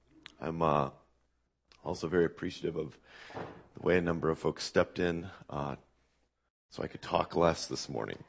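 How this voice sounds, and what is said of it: Hoarse, strained voice. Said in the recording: “You can tell by my voice, this is not a normal week for me ... I will do my best to be understandable. I have laryngitis”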